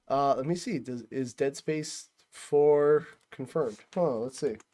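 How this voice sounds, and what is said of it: Usual voice. Nothing is said of it.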